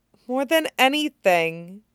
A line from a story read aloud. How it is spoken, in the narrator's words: Vivi mumbled into her shoulder